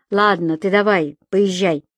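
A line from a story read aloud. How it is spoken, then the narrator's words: Commanding voice. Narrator (Russian): командным голосом добавил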